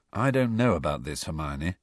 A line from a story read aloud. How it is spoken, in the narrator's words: Harry muttered